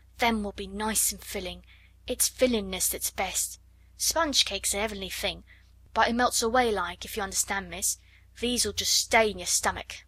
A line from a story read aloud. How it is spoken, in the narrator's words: she murmured